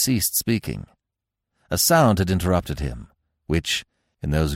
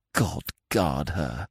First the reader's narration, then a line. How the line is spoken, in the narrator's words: he whispered